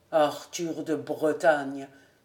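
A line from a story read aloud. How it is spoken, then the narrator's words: Old man murmuring. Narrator (French): murmura le vieux gentilhomme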